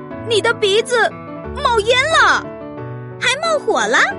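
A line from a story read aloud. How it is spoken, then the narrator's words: Loud clamoring. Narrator (Chinese): 可可猪也嚷嚷着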